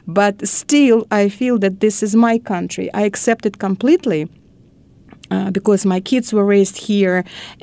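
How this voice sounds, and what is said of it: Non-native English accent. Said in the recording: “my accent, of course, it's not my natural accent”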